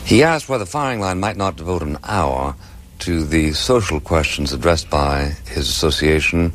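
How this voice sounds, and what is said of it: Very British-sounding accent. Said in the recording (Danish): “han taler jo det her lidt specielt accent, meget britisk i virkeligheden. ... Det er ikke sådan, man normalt hører amerikanerne”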